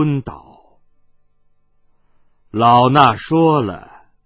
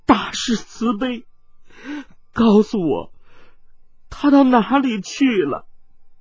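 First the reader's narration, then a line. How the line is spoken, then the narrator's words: Sobbing bitterly. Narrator (Chinese): 温黛黛痛哭道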